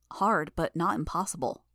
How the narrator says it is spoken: I said

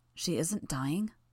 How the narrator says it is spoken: I asked, my voice a murmur

